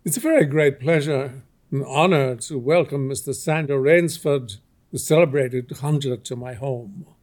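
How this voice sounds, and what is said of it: Cultivated, precise voice, slight accent. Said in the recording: “In a cultivated voice, marked by a slight accent that gave it added precision and deliberateness”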